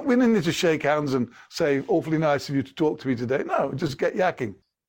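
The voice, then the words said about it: English accent. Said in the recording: “you got an English accent”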